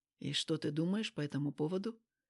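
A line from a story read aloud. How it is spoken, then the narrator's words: Slightly hoarse question. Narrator (Russian): с легкой хрипотцой спросил Макаров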